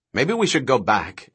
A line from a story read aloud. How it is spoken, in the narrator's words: Eddie said anxiously